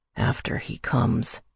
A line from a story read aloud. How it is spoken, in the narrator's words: he whispered